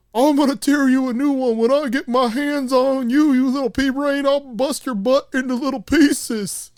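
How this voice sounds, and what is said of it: Imitates another person's voice. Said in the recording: “they start impersonating Hank. ... you do a good impression. Let me try.”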